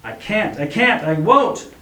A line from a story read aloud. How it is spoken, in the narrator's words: he screamed, and now the words and emotions came tumbling out